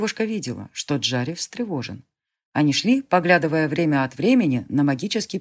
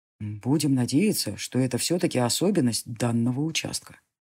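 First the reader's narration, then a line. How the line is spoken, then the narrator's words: Plain. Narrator (Russian): сказал маг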